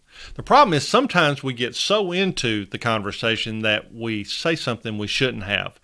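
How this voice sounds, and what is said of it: Slight Southern US accent. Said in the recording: “I have a slight accent, and yes, I'm from the South. Proudly Southern. I was born and raised in northern Alabama.”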